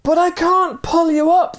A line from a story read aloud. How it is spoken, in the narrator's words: the man cried